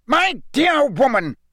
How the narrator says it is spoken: roared Fudge, who likewise looked angrier than Harry had ever seen him

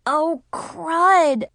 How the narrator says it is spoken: I grumbled

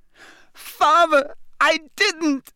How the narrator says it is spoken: shrieked the boy in chains below

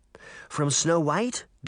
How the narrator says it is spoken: Daphne asked

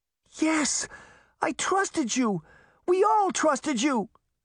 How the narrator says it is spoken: Sabrina cried

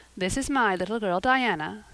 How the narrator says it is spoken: said Mrs

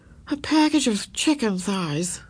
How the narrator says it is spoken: said Beezus with a groan

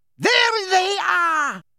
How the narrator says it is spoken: shrieked

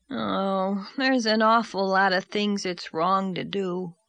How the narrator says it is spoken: said Davy with a sigh

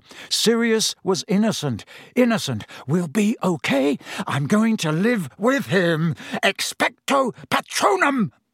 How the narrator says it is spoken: he gasped

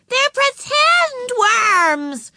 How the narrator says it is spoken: yelled Ramona

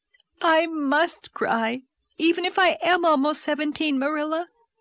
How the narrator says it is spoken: she sobbed

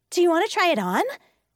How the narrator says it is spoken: she asked eagerly

